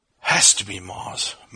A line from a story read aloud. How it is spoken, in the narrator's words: muttered Charlie under his breath